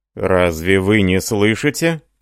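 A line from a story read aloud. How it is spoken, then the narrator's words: Almost menacing. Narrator (Russian): продолжал Метцер почти грозно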